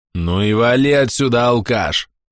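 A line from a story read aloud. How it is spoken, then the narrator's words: Angry roar. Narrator (Russian): зло взревел Бабурака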